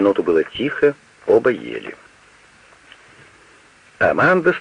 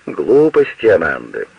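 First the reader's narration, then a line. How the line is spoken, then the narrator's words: Cheerful. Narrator (Russian): весело сказал Вольфганг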